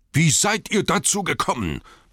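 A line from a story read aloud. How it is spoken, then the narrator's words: Roaring in rage. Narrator (German): brüllte Thorin in unbezähmbarer Wut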